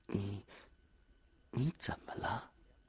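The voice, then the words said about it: Quiet hesitant question. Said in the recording (Chinese): “小声问”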